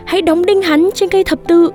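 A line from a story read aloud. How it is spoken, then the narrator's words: Crowd shouting. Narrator (Vietnamese): đám đông la lên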